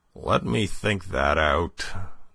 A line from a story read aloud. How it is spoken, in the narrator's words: groaned Polichinelle